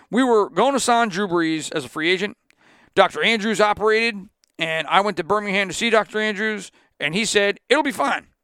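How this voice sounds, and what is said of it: Imitates another person's voice, deliberately poor. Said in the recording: “This is my terrible Nick Saban accent.”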